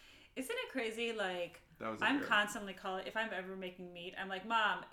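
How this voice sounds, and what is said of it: Usual voice. Nothing is said of it.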